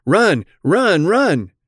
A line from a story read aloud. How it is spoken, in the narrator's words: shouting